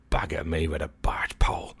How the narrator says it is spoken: he muttered

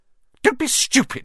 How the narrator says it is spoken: snapped Aunt Petunia

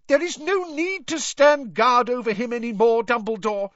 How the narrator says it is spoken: she shrieked

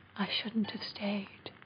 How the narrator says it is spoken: whispered

